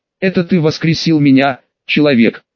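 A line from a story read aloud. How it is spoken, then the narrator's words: Calm. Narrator (Russian): спокойно сказал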